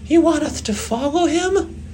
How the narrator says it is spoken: CJ yelped in disbelief

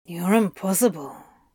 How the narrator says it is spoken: muttered

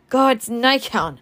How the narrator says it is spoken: she cried at last

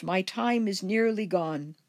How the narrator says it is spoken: cried the ghost

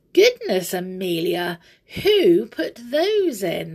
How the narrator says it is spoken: they cried

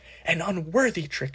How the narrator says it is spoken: she was shouting

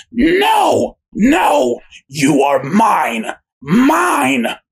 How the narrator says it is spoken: Ethel she screams out

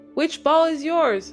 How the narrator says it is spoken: shouted

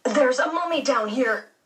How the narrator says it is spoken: blurted out

